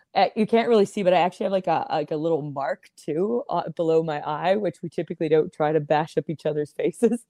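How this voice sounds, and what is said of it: Slightly raspy, hoarse voice. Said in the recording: “my voice is a little raspy today still from the impact of that kick to my vocal cords”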